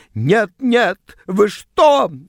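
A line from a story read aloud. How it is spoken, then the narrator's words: Shrieked. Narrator (Russian): взвизгнула она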